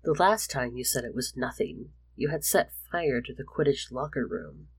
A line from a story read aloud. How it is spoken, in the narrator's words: Remus started in his official prefect tone